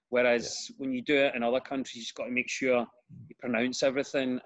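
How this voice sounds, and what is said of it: Glaswegian Scottish accent. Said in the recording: “as you can hear with my accent, Glasgow, it's very common to slightly drop a consonant or vowel and run words into each other”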